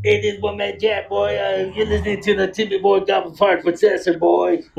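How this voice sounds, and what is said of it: Imitates another person's voice. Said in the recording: “my Wolfman Jack impression”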